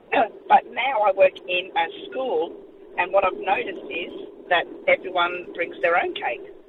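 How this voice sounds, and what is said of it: Hoarse, strained voice. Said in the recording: “I've lost my voice. I hope you can hear me.”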